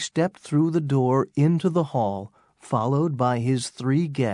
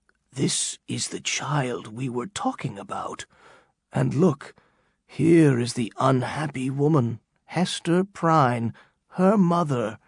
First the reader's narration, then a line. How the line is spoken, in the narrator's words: He whispered